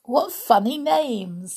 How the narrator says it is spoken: Snow White giggled

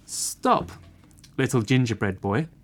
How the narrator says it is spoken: said the horse

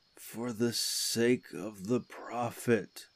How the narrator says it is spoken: he moaned

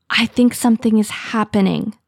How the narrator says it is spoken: Petal Kit whispers

